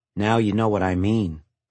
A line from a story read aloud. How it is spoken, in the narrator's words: Mark said dryly